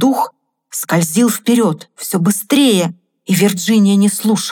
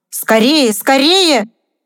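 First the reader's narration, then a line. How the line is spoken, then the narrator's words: Shouted, spirit. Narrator (Russian): крикнул дух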